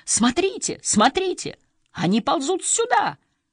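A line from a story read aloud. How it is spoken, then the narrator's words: Shrieking. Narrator (Russian): взвизгнула Марго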